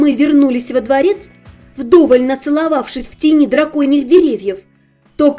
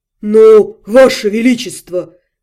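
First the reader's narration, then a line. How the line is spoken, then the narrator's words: Muffled muttering. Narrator (Russian): глухо бормотал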